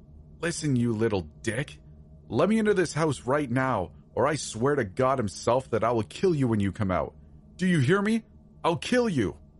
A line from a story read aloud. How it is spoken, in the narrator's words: snarled